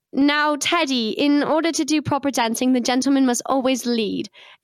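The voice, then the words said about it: Put-on British accent. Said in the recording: “I was a Victorian doll, so I had a British accent ... say it in a British accent”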